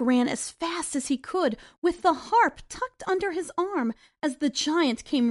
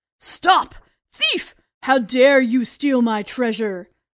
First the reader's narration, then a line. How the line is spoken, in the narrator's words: thundered the giant